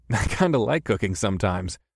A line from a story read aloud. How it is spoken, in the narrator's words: I chuckled